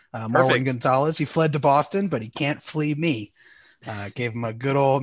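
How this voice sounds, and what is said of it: Slightly raspy voice. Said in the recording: “My voice is a little raspy because I did some shouting”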